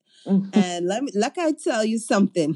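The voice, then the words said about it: Put-on Caribbean mother accent. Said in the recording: “That's not a Grenadian accent... I don't know what that was, but it felt like all of the mothers of the Caribbean.”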